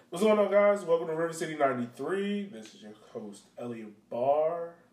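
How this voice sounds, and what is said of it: Tired-sounding voice. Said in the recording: “If you can tell by my voice, I, I'm tired.”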